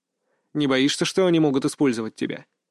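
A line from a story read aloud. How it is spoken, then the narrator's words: With a snort. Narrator (Russian): Арс хмыкнул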